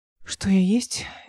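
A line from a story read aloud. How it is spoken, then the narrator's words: Sighing. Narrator (Russian): Эл вздохнула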